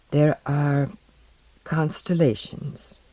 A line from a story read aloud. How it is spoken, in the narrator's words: replied in a soft voice